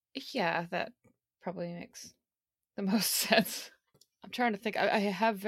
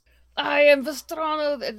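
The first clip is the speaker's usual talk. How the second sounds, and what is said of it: Thick put-on Russian accent. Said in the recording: “Just say everything in a thick Russian accent.”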